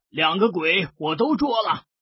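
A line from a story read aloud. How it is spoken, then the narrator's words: Loud yell. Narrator (Chinese): 大叫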